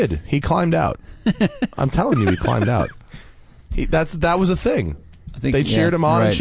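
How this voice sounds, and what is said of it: Usual voice. Nothing is said of it.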